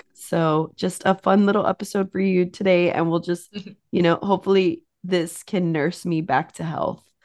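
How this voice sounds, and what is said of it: Sick-sounding voice. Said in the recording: “sorry for my voice. ... as you can tell, I'm very sick.”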